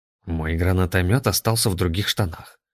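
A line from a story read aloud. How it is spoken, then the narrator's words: Quiet reply. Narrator (Russian): тихо ответил ей Иннокентий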